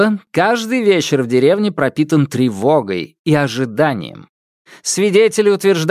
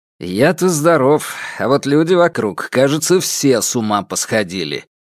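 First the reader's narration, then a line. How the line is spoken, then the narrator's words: Grumbling. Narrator (Russian): проворчал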